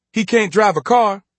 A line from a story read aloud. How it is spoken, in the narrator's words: Jeannie said sharply